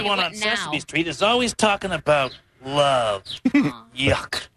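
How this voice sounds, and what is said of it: Grouchy Oscar the Grouch voice. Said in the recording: “her imitation of Oscar. It's pretty funny.”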